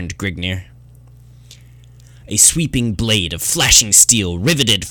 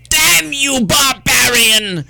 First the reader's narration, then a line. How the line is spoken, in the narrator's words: shrieked the soldier as he observed his comrade in death